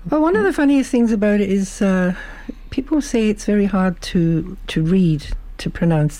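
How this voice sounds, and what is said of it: Mixed Scottish-Irish-English accent. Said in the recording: “Beautiful accent. We love that Scottish accent ... it's something of a mixture ... a bit of a mongrel accent”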